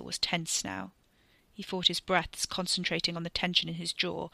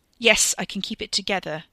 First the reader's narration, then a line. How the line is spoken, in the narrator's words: Ricky snapped